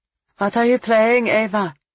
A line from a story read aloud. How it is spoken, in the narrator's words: Felix Adler sighed